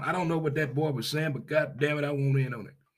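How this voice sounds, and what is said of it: Put-on Southern drawl. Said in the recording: “every now and then I throw that old Southern drawl in there. That old Southern drawl. That old Southern talk as they do way down yonder”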